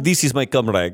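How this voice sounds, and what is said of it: Put-on Russian accent. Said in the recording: “If you say comrade in a Russian accent”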